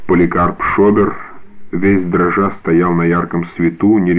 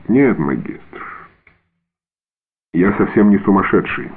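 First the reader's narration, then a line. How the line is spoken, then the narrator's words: Dry, after pause. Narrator (Russian): сухо продолжал он, немного помолчав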